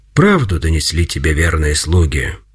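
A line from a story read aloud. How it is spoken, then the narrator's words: Calm. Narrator (Russian): спокойно отвечал Пантелеймон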